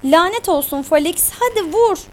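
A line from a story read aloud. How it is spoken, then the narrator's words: Cried out. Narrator (Turkish): diye haykırdı Fabi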